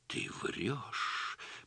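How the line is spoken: Shocked whisper. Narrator (Russian): прошептала Галина Ивановна побелевшими губами

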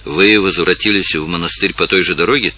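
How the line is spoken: Quiet question. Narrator (Russian): спросил тихо хозяин

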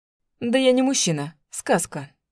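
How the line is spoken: Snorted. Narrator (Russian): хмыкнул он

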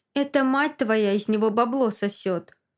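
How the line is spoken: Cold scoff. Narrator (Russian): Холодно хмыкает он

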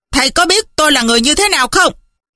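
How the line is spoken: Furious shout. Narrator (Vietnamese): Ngô sư gia càng tức, ông ta bèn quát lên

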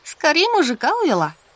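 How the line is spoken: Laughing. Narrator (Russian): засмеялась Люда

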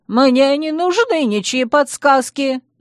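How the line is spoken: Shrill squeal. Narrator (Russian): взвизгнул Луи

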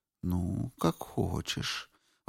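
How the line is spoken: Sudden soft whisper. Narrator (Russian): Вдруг шепнул чей-то голос, тихий, как плеск волны

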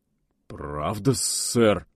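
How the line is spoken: Timid babble. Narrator (Russian): пролепетал он

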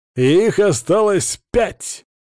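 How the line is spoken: Loud announcement. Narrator (Russian): Громко, чтобы меня услышали все, кто находился в пещере, оповестил я

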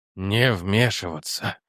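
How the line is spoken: Breathed out. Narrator (Russian): выдохнул Хобби

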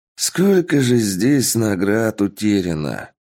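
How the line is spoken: Man's mournful sigh. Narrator (Russian): Горестно вздохнул мужчина

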